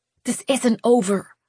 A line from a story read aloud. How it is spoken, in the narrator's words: Lou hissed